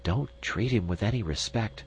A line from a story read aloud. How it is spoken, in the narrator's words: whispered Miss Chim